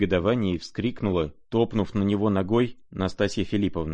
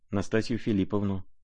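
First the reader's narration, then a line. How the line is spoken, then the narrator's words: Mumbling. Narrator (Russian): пробормотал князь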